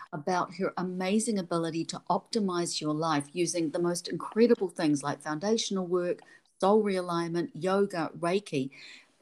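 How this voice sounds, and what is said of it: New Zealand accent. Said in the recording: “my Kiwi accent”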